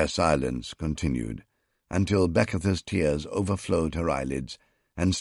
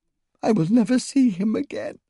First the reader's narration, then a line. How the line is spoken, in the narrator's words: sobbed